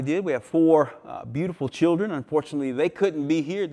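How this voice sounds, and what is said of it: Southern American accent. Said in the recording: “this is not a Leitrim accent that you're hearing this morning. I'm from just southwest of Galway, a little place called Georgia in America.”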